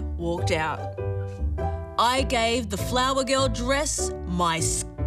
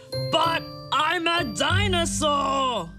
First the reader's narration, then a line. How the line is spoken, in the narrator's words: roared